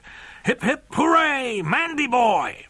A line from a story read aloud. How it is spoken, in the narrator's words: From behind him came frightening roars of